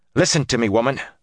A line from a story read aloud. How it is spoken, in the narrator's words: Moraine snapped